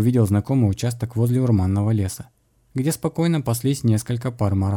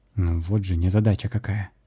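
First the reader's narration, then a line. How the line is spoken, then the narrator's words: Muttered. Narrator (Russian): пробормотал я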